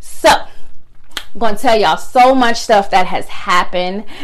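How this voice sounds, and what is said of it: Usual voice. Nothing is said of it.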